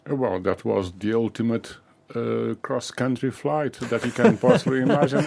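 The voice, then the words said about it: Portuguese accent. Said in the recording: “So you're not just putting that accent on, it is genuine ... I was born in Lisbon ... In Portugal”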